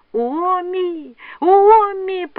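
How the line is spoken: Piercing scream. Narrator (Russian): пронзительно закричала Кунья

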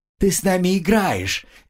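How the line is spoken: Cheerful child's laughter. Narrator (Russian): Весело рассмеялся малыш

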